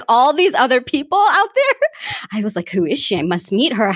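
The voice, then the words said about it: American accent. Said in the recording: “you have a decidedly better and less offensive accent ... my American accent”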